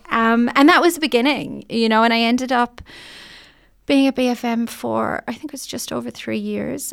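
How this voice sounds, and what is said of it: Irish accent. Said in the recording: “there was a huge novelty value with the accent ... the Irish accent.”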